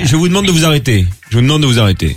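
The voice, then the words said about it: Imitates another person's voice. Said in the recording (French): “C'est moderne, ça, comme imitation”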